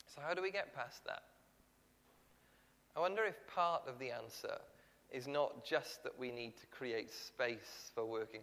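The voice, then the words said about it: Welsh accent. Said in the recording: “I've had a Welsh accent”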